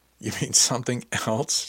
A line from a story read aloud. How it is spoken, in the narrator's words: she asked, laughing